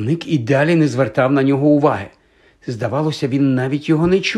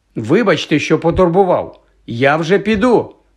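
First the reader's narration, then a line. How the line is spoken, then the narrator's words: Nearly shouted. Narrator (Ukrainian): мало не крикнув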